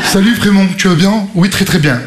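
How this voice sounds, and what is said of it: Mock Parisian French accent. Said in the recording (French): “Ils ont tous accent parisien.”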